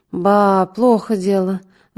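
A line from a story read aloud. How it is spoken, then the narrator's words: Sighing. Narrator (Russian): вздохнул доктор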